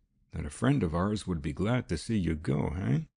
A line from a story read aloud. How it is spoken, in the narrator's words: lowered his voice